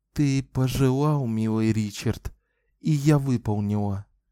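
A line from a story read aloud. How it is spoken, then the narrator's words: Sad whisper. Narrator (Russian): ответила она печальным шепотом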